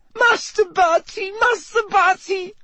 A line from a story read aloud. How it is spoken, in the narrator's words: sobbed Winky through her hands